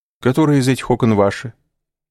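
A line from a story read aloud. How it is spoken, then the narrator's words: Forced natural tone. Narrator (Russian): спросил он насколько мог естественным тоном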